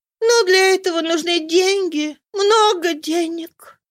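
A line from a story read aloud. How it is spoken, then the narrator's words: Sighing. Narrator (Russian): вздохнула Роза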